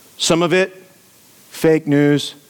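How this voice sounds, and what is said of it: Donald Trump impression. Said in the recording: “That was my best Trump impression”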